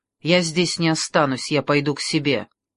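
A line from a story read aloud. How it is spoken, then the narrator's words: Abrupt, clipped. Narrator (Russian): отрывисто сообщил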